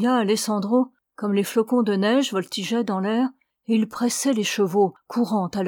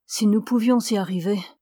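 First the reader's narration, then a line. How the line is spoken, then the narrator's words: Sighing. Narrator (French): soupira Alessandro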